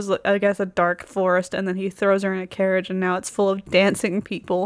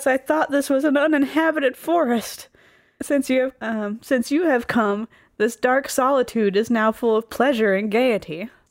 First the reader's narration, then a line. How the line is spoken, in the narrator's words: Gracios shouts